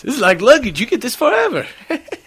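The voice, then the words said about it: Poor Eddie Murphy impression. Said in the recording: “That's not a great Eddie Murphy impression.”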